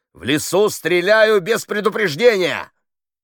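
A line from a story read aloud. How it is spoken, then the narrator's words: Shout. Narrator (Russian): крикнул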